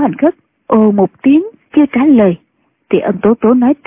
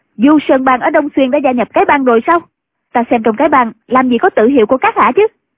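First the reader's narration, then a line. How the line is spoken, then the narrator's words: Sudden shout. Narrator (Vietnamese): Ân Tố Tố bỗng quát lên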